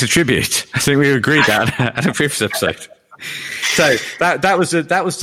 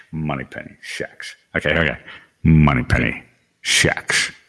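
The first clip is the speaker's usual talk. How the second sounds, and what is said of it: Imitates another person's Scottish voice. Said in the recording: “a Scottish man ... did my Sean Connery impression, I'm happy to have a quick stab at it now.”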